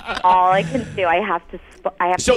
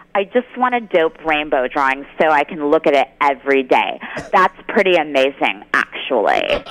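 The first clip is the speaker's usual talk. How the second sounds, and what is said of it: Drew Barrymore impression, side-of-mouth talk. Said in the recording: “so I can do the impression ... let me try to do the Drew voice ... Another way you can say Drew Barrymore is you talk out of the side of your mouth”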